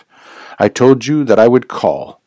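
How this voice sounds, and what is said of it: Deep harsh voice, German accent. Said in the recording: “with a deep, harsh voice and a strongly marked German accent.”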